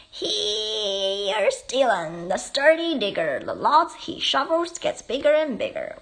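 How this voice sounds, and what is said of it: Big, exaggerated read-aloud voice. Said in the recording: “puts on her biggest voice”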